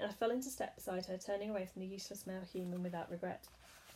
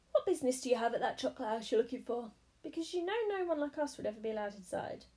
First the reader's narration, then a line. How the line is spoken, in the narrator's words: Silky said brightly